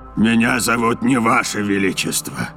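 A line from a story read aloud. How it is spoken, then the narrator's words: Monster's growl. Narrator (Russian): зарычал монстр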